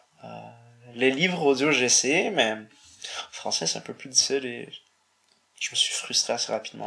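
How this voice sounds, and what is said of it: Charming non-native accent in French. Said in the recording (French): “tu as un accent tout à fait charmant”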